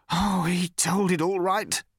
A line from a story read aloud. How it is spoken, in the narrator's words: said the man savagely